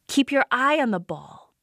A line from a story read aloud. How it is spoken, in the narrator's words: shouted